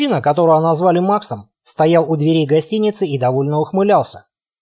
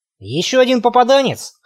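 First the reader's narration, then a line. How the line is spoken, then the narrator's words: Snorting. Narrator (Russian): хмыкнул Макс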